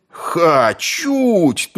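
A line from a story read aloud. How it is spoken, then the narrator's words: Many voices yelling. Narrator (Russian): тут же завопили со всех сторон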